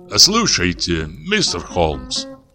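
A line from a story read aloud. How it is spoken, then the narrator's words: Cheerful. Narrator (Russian): весело сказал он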